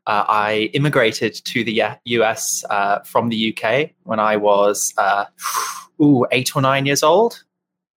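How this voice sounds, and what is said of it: English accent. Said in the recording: “that is not an American accent ... that fun accent ... I am English”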